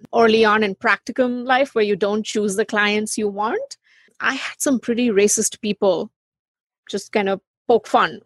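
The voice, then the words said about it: Speaks with a noticeable accent. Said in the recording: “the moment they hear my accent ... someone who doesn't sound like you”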